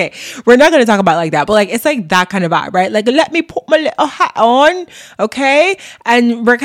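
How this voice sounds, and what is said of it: Usual voice. Nothing is said of it.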